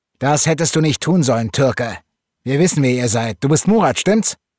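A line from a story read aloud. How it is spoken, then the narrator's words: Shouting. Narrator (German): rief einer der Brüder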